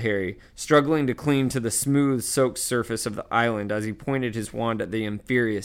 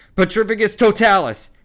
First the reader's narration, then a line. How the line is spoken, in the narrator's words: Harry bellowed again